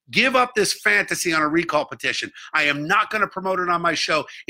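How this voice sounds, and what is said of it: Angry tone of voice. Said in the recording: “It makes me angry, as you can probably tell by my tone”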